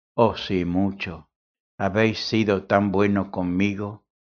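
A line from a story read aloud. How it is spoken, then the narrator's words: Plain. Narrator (Spanish): contestó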